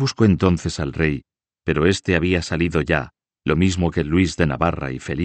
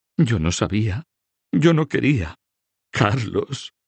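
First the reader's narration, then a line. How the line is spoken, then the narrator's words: Breaking into sobs. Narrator (Spanish): dijo rompiendo en sollozos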